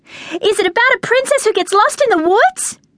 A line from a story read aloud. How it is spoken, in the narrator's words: I cried